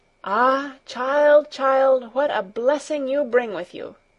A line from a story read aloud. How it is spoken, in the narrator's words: the old woman exclaimed